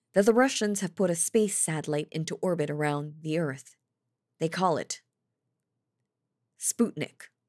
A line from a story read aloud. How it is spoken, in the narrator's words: he said in that trembly voice